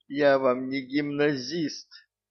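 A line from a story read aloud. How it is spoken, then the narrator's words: Hysterical sobbing. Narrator (Russian): Элиза истерически всхлипывала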